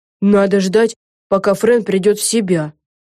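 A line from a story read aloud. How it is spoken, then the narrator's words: Grumbled. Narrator (Russian): проворчала Лиззи Бист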